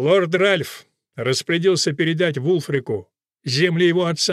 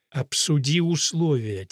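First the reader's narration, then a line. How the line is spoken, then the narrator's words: Quiet but insistent. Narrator (Russian): тихо, но настойчиво проговорила Гвенда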